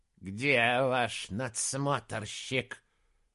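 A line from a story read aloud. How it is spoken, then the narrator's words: Hiss. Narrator (Russian): прошипел Прайрот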